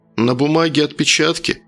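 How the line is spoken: Incredulous snort. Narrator (Russian): недоверчиво хмыкнул Алексей

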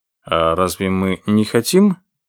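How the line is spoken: Dry question. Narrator (Russian): сухо спросил Дези

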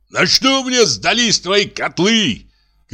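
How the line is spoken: Shouting. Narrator (Russian): кричал Ананев

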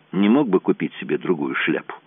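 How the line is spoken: Sudden mutter. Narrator (Russian): пробормотал внезапно Лабери

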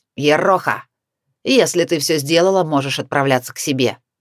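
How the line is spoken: Grumbled, young woman. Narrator (Russian): Девушка буркнула

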